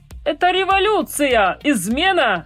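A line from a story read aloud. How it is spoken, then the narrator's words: Fat man shouting. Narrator (Russian): закричал толстяк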